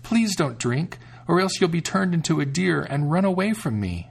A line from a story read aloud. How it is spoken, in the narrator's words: the sister exclaimed